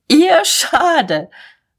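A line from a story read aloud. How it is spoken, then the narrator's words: Wild laughter. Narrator (German): Mahlmann lachte tobend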